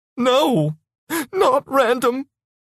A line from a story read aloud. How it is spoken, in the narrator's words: she said, sobbing